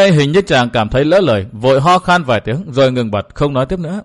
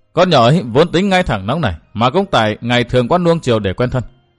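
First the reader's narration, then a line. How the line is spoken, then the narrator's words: Sighing mutter. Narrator (Vietnamese): Cổ Ngọc Thanh thở dài lẩm bẩm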